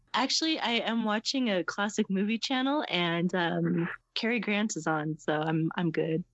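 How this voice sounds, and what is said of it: Congested, slightly rough voice. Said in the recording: “I have a little bit of a head cold, so I'm sorry if I sound a little rough at times.”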